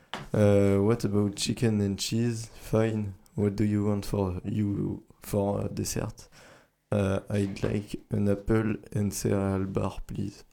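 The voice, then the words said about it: Poor accent speaking English. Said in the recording (French): “mon accent il est misérable.”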